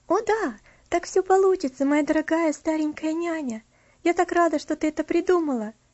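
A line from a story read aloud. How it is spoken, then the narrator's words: Joyful. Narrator (Russian): радостно проговорила Элси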